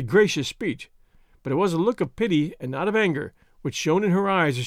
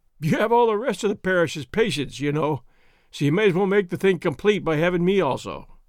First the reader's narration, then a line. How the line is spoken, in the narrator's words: Ripley, feebly, and then, with a half-hysterical laugh